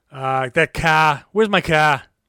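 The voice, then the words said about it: Exaggerated nasal, gruff Boston accent. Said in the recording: “very Boston accent. That was horrible. You know, that was horrible... Nasally, drops his eyes. A little gruff.”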